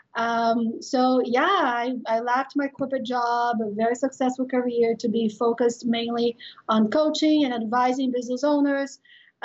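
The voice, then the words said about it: Brazilian accent. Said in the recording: “if you notice my accent, I am Brazilian”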